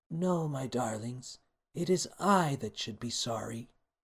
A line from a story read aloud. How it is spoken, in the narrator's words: The queen stood quietly and said